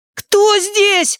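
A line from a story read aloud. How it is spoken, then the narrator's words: Shrill quavering shout. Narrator (Russian): закричал он пронзительным, дребезжащим голосом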